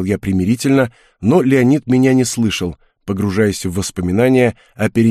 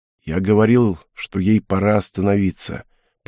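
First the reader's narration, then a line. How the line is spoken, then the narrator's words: Muffled, flat. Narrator (Russian): произнес он глухо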